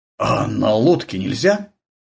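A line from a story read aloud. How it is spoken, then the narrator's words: Confused, bewildered. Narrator (Russian): растерянно проговорил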